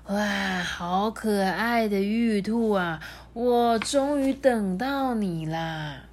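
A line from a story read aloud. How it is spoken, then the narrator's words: Hoarse, coughing. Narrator (Chinese): 李华…咳了几声，呢，沙哑的说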